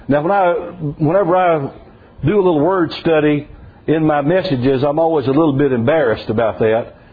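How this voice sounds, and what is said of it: South Mississippi accent. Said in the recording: “Hagios, that's the way you'd say it with a South Mississippi accent.”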